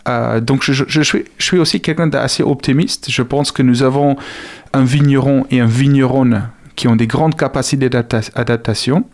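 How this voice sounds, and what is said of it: South African accent speaking French. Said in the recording (French): “avec mon accent... je suis originaire d'Afrique du Sud”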